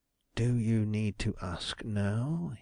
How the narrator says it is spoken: whispered in a low voice

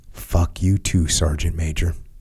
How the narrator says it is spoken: quietly said

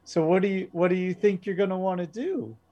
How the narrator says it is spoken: very giggly, very happy, and she says

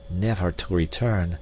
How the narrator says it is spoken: muttered D'Arnot

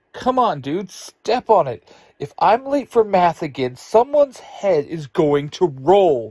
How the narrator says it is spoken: Ruthie snaps

